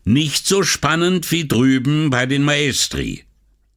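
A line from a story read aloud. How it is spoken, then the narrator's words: Shouting over noise. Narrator (German): So laut, dass er das Knirschen der Scheiben und das Wasserrauschen übertönte, rief er Assunta zu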